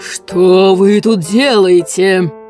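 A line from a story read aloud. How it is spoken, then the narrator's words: Roar. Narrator (Russian): взревел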